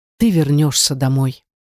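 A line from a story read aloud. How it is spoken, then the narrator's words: Sad sigh. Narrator (Russian): грустно вздохнул красавец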